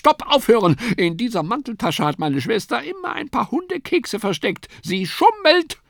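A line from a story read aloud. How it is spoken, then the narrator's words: Sudden cry. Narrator (German): Sofort schrie die Linke auf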